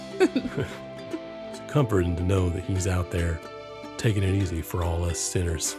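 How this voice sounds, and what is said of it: Imitates another person's voice. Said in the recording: “That was really good. ... It's my best impression.”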